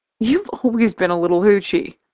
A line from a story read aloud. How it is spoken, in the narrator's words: I laugh